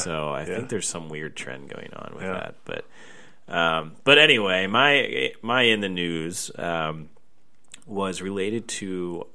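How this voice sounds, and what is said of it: Dry, congested stuffy-nose voice. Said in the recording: “my voice is a little like dry, I don't even know what it is. I have a stuffy nose”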